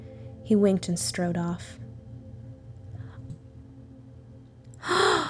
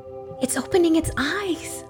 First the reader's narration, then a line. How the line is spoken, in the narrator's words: a woman squealed